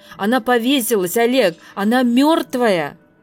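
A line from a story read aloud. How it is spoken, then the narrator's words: Shouting. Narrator (Russian): кричала Маша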